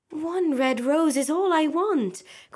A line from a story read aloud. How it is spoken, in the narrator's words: cried the nightingale